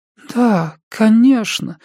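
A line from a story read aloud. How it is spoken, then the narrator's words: Muffled exclamation. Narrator (Russian): воскликнула Катя приглушенным голосом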